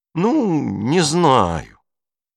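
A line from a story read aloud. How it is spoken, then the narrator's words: Drawn out. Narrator (Russian): протянул Бруно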